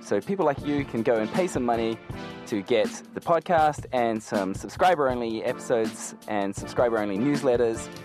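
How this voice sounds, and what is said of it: New Zealand accent. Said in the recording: “That unmistakable Kiwi accent”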